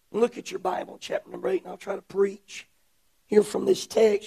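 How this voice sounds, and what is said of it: Hoarse voice cutting in and out. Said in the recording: “My voice is in and out, this pollen.”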